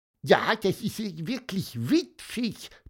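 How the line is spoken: Squeaky voice. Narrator (German): piepste Pieper

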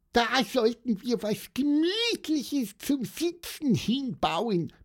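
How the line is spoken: Squeaked. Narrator (German): piepste Pieper

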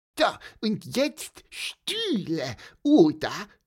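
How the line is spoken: Squeaky voice. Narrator (German): piepste Pieper

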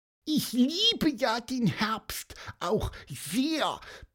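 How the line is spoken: Squeaky voice. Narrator (German): piepste Pieper

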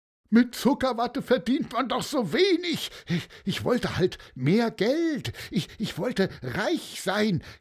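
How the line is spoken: Whining lament. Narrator (German): jammerte der

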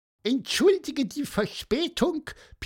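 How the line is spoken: Squeaky voice. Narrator (German): piepste Pieper

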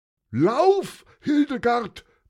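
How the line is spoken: Roar. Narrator (German): brüllte Günther

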